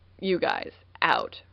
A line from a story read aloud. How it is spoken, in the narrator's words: Ronan growled